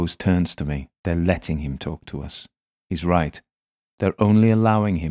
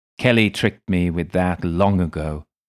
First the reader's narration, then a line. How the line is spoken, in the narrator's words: Lacoz says